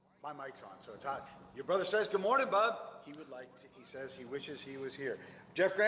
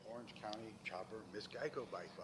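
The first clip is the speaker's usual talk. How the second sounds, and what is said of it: Whispering. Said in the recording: “Why are you whispering?”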